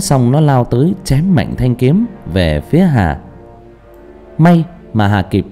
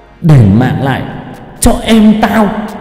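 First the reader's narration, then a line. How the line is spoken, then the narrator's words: Loud shout. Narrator (Vietnamese): Nhất phá sát hét lớn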